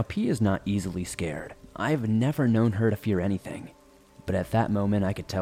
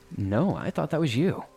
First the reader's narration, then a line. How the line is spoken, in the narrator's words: she nervously said